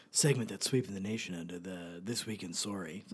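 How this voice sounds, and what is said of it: Raspy late-night radio DJ voice. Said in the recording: “Real radio voice... nighttime DJ, like midnight to 3 a.m. DJ voice... a sexier voice... a little, like, raspier... That could also be an NPR host.”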